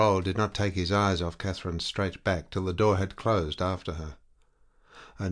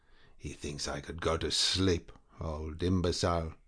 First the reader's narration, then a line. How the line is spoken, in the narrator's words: muttering savagely through her pretty teeth